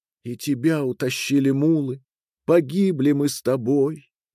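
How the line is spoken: Tearful sad whisper. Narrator (Russian): Девушка повернула к Маре свое заплаканное лицо и печально сказала ей шепотом

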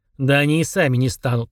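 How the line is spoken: Grunting hmph. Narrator (Russian): хмыкнул Фрундорог

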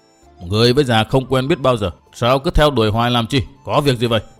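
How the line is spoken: Old man's angry demand. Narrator (Vietnamese): ông già trợn mắt lên quát hỏi

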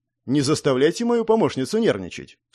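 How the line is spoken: Calm reply. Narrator (Russian): спокойно ответил граф

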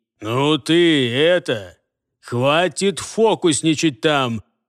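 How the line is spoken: Attempted grumble. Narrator (Russian): Попытался было пробурчать Джаргул

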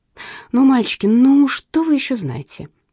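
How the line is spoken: Pleading. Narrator (Russian): взмолилась я

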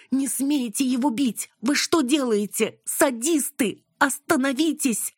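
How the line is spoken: Scream. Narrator (Russian): Она закричала

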